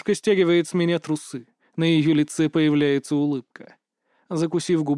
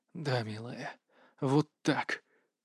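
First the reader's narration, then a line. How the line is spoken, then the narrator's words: Hoarse. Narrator (Russian): хриплю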